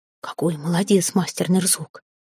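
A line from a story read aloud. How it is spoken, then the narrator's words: Quiet. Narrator (Russian): негромко произнес Эрелив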